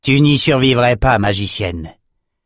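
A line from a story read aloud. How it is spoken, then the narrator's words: Grumbling. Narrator (French): grogna Cyrus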